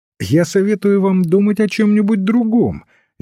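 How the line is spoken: Cheerful reply. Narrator (Russian): весело отвечал священник

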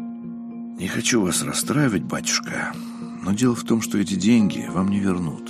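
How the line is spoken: Sighing. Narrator (Russian): вздохнул Устинов

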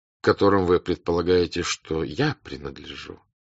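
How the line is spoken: Calm, pleasant, smiling. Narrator (Russian): спокойно и особенно приятно улыбаясь, проговорил князь Андрей

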